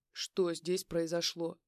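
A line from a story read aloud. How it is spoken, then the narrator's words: Policeman's stern question. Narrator (Russian): Строго спросил один из полицейских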